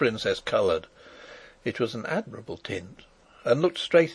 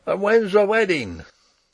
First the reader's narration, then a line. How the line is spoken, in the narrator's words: a rough fellow cried out